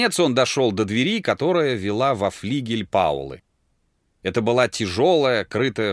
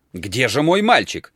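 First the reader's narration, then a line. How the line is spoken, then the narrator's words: Shouting. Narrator (Russian): кричал Дик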